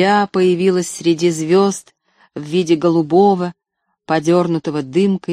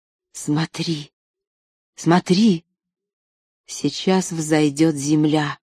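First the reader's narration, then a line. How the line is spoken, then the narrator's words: Whispered. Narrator (Russian): Анна прошептала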